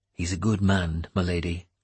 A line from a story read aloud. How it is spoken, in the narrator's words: I said quietly